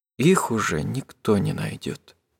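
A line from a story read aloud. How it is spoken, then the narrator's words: Quiet. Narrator (Russian): сказала она тихо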